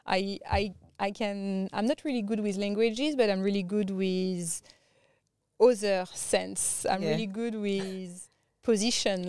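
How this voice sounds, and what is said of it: Strong non-native accent. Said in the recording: “I have a really strong accent.”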